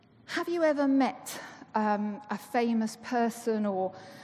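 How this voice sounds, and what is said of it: Usual voice. Nothing is said of it.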